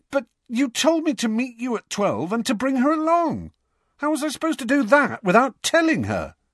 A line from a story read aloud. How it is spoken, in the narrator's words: spluttered Harry